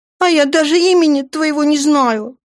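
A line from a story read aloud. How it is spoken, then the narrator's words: Sobbing. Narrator (Russian): всхлипнула Даша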